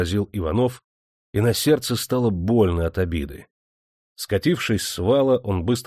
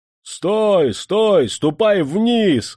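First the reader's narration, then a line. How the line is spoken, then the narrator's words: Officer shouting. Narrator (Russian): закричал ротный офицер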